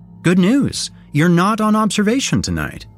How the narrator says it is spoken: Heather exclaimed

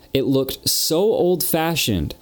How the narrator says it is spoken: she said

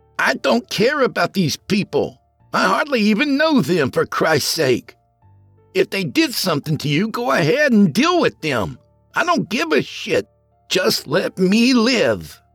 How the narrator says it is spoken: Ken shouted

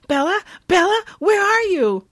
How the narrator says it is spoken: her mom frantically saying

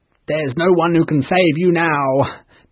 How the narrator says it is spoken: the pirates laughed

